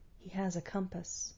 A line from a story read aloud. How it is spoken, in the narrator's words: He murmured